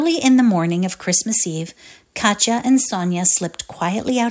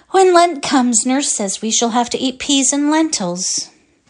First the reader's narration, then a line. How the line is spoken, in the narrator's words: grew thoughtful and said with a sigh